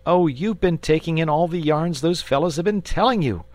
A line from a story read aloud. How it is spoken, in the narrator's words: said the boy impatiently